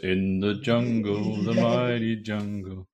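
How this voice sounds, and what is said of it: Sings in a deep voice. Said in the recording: “Is that with my deep voice?”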